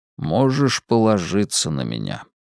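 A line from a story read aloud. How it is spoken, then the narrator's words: Calm. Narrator (Russian): спокойно сказал Мэлли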